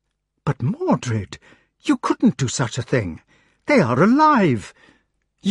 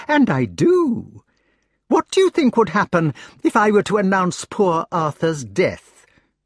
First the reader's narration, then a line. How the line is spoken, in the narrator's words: exclaimed gaily